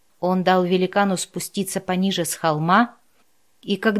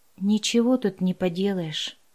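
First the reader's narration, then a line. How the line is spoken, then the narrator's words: Sighed. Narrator (Russian): вздохнул Андерс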